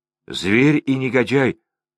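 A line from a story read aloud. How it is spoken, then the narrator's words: Exclaiming. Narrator (Russian): воскликнул Андрей Борисов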